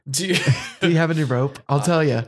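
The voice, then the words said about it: Low, subdued put-on voice. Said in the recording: “doing this voice ... I'm just trying to keep it low today ... trying out a new podcasting voice”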